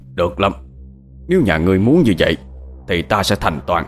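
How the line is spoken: Angry low snap. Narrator (Vietnamese): Sư thầy tức giận quát khẽ

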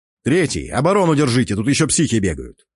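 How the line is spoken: Shouted. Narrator (Russian): Успел я крикнуть гоблину

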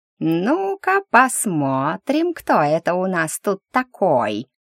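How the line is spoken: Nasty drawl. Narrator (Russian): Противненько протянуло неизвестное создание

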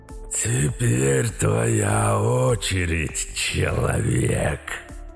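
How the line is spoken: Deep hoarse growl in head. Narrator (Russian): Услышал у себя в голове парень густой хриплый рык мутанта

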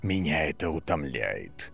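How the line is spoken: Whisper. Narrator (Russian): прошептал профессор

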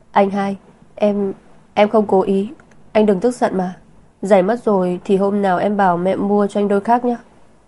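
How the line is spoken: Small boy, scared, tearful, quiet. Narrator (Vietnamese): một bé trai chừng 6-7 tuổi sợ hãi, trên mặt còn vương nước mắt, nhỏ giọng gọi Lam Băng Tuyền

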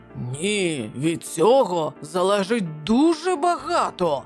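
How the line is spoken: Husband's angry reply. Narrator (Ukrainian): сердито відповів її чоловік

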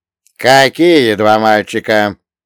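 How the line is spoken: Cold, curt. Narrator (Russian): холодно отрезал Салли

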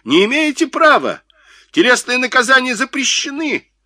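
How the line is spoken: Shrill shout. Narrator (Russian): Дохно закричал визгливо

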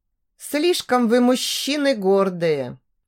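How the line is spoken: Sigh. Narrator (Russian): вздохнула Даша

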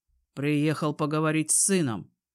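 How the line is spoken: Rude reply. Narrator (Russian): грубо отвечаю

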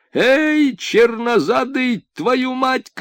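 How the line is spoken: Worker shouting. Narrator (Russian): крикнул рабочий

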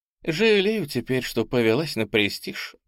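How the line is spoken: Sad smiling. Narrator (Russian): грустно улыбнулась Ола Гран

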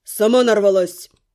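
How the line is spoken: Growling. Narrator (Russian): Рыкнул Каст

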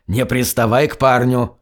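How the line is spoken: Hiss. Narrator (Russian): Гарри, который прошипел

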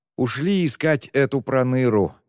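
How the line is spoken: Sighing. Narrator (Russian): вздохнул Читау

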